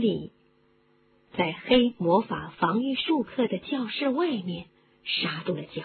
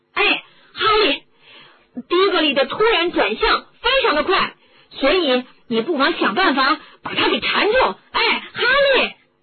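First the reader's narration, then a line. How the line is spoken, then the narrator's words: Calling from behind. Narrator (Chinese): 乌德还在他的后面叫着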